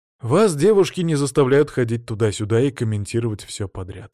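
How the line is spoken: Tired sigh. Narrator (Russian): устало вздохнул он

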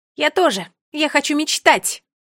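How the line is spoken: Booming voice. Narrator (Russian): Прогремела Нола

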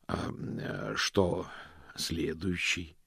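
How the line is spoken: Hoarse question. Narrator (Russian): хрипловато поинтересовался Мокриц

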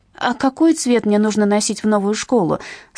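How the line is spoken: Startled question. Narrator (Russian): спросила, вздрогнув

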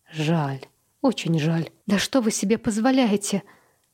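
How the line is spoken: Quiet, growing confident. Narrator (Russian): Поначалу ее голос звучал тихо, но чем дольше она говорила, тем увереннее становилась

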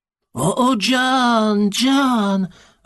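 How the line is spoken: Joyful admiration. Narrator (Russian): радостно выражал он свое восхищение

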